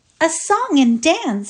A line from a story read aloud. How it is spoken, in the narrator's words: she said, in a deliberate sweet voice that seemed to clothe her words in a diaphanous garment of impalpable irony